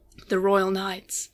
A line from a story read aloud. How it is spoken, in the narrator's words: Tartarus said softly to himself